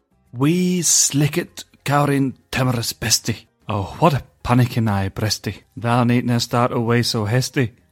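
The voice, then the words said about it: Put-on Scottish accent. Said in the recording (Spanish): “¿Cómo me ha salido el acento escocés? Escocés del sur de España, ¿no?”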